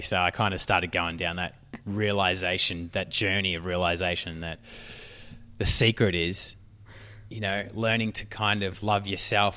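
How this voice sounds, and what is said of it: Australian English accent. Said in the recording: “all the really cool Australians ... they love my accent”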